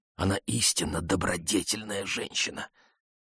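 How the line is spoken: Ardent whisper. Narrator (Russian): Коси пылко прошептала ему

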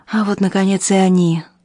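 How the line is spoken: Sighed. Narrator (Russian): вздохнула Фрина

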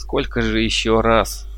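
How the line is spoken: Feigned angry grumble. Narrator (Russian): буркнул я, притворяясь разгневанным

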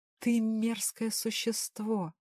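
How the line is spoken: Tearful whisper. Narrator (Russian): прошептала сквозь слезы

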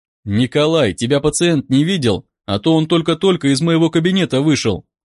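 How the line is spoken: Plain. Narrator (Russian): спросил я

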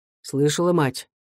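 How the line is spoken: Quiet old man's question. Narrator (Russian): старик Сизов негромко спросил

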